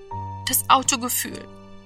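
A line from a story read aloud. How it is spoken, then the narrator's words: Dull murmur. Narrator (German): murmelte er dumpf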